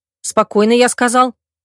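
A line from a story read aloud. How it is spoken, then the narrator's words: Sharp barked command. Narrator (Russian): рявкнул мой бывший жених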